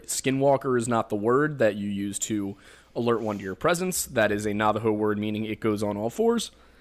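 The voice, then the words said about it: Thick Pennsylvania accent. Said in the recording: “my apparently quite thick Pennsylvania accent ... Apparently I have a thick accent.”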